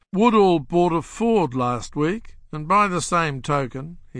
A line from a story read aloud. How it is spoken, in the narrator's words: he said